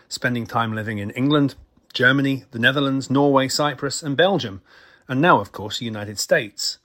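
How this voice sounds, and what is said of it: Mixed Scottish-international accent. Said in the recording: “he doesn't sound very American ... he doesn't sound very Scottish either ... my accent has picked up influences from all over”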